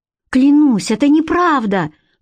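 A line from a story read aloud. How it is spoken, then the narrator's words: Woman crying out. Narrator (Russian): вскрикнула женщина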